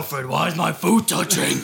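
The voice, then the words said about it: Imitates Batman's stupid voice. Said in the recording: “that stupid fucking voice”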